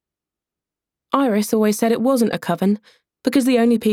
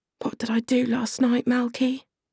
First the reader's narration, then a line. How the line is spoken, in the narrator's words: She whispered